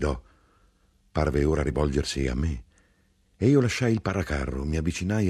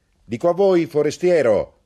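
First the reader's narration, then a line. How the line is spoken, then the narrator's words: Shouted. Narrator (Italian): egli gridò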